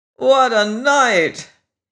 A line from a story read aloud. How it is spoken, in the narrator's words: He groaned